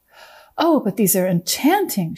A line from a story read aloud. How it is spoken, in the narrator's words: cried